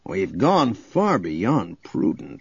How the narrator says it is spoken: grumbled

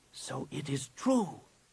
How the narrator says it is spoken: he whispered

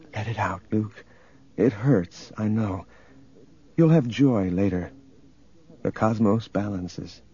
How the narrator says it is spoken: she whispered

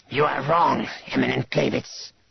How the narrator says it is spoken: Drachmas hissed

